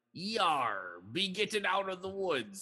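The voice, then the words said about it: Pirate voice. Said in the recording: “in like a pirate voice ... they talk in a pirate voice”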